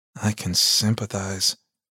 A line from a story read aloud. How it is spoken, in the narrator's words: Sis mumbled